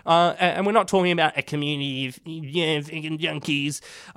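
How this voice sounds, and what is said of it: Mocking funny voice. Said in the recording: “my little funny voice there”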